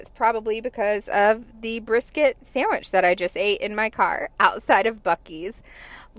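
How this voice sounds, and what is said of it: Slightly cracky voice. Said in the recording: “my voice is a little cracky”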